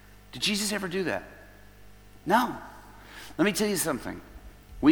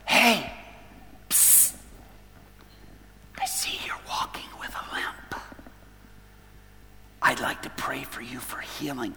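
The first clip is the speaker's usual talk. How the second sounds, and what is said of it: Whispering. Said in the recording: “I'm whispering.”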